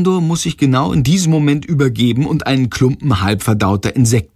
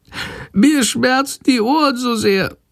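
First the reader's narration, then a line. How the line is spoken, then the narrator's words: Sick bat whimpering meekly. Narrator (German): jammert die kranke Fledermaus ganz kleinlaut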